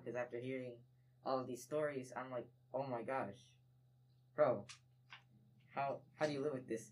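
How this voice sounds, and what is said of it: Shaky, emotional voice. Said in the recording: “my voice is kind of shaky right now”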